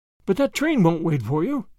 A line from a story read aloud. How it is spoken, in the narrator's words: gasped Grandma, half in protest